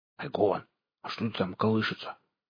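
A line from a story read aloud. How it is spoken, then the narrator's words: Whispered question. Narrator (Russian): шепотом спросил Лом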